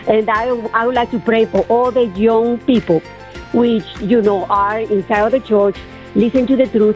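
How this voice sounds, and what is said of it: Speaks English with a noticeable accent. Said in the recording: “You have such a wonderful way of expressing yourself and a wonderful accent.”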